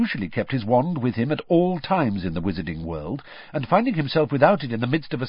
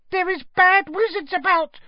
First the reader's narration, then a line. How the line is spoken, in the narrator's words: she squeaked distractedly, as she leant forwards and laboured to keep running